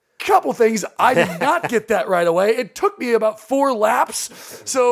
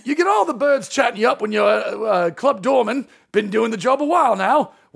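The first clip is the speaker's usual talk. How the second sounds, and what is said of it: Put-on Cockney accent. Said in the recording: “I need to read this in a Cockney accent”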